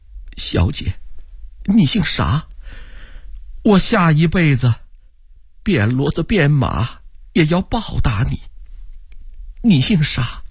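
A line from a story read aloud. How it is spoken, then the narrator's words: Old woman, trembling. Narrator (Chinese): 老太婆颤声问道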